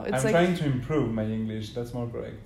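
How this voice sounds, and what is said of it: French accent in English. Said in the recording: “my native language is French ... Hence the accent.”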